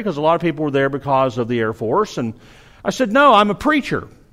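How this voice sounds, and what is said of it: Southern American accent. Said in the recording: “I have a southern accent. I don't know if you've noticed, I have a southern accent ... this kid picked up on my accent”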